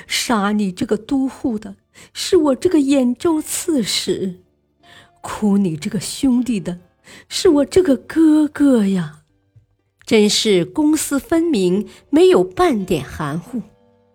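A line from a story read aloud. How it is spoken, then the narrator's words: Loud wailing sobs. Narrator (Chinese): 他抚摸着堂弟的尸体，嚎啕大哭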